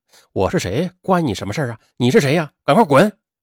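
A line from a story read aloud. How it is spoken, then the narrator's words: Angry and jealous. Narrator (Chinese): 点燃了孙英杰的愤怒和嫉妒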